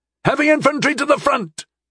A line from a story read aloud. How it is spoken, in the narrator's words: I declared, as Telamon shouted the same thing